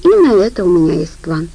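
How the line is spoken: Sighing. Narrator (Russian): вздохнула Хелли

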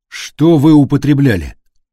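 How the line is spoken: Stern question. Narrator (Russian): строгим тоном спросил Полуянов

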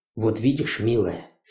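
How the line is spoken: Passionate whisper. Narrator (Russian): страстно зашептал он

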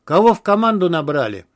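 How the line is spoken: Laughing. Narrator (Russian): засмеялся Протасовицкий

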